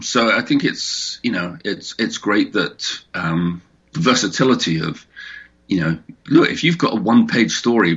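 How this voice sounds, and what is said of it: English accent. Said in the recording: “because of your accent. Does uh, like the anthologies, you know, over in England”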